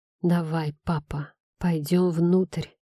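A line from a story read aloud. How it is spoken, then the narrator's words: Breaking whisper. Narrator (Russian): прошептал, и мой голос надломился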